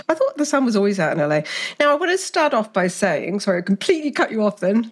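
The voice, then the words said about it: Soothing accent. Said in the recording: “I love hearing your voice. Thank God for that accent because it soothes me.”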